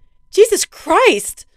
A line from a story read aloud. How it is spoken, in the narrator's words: shouted as she finally woke up